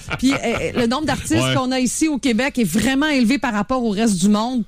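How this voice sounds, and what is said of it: Québécois French accent. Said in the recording (French): “On a cet accent-là qu'on a nous donne une certaine couleur, il paraît, vocalement”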